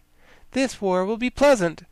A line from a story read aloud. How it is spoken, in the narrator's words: replied the girl cheerfully